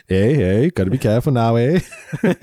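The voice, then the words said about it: Put-on Minnesotan accent, drifting Scottish. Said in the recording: “This is a Minnesotan accent, eh? I was like, well, I went a bit Scottish... that was a pretty good continue? Minnesotan accent.”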